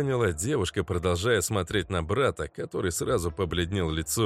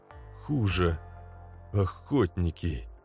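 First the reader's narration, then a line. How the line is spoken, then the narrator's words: Grave, sepulchral voice. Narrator (Russian): Парень могильным голосом произнес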